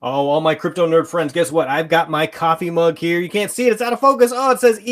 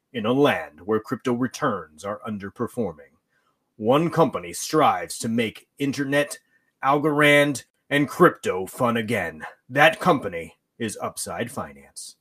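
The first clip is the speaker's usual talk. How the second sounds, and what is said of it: Dramatic movie trailer narrator voice. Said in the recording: “my movie trailer voice. I don't know if I have a movie trailer voice”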